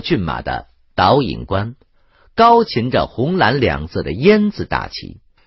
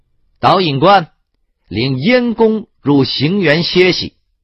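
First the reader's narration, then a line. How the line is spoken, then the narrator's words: Loud, reluctant command. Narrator (Chinese): 庞涓只好高声命令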